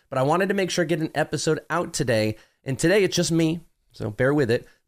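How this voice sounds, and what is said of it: Nasal, congested voice. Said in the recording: “I'm a little bit nasally for whatever reason... I was a little congested”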